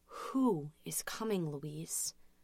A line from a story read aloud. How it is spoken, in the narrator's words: her voice trembled